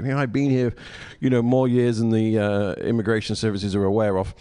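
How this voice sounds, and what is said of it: Foreign, non-American accent. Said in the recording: “His accent allows me to get away with so much”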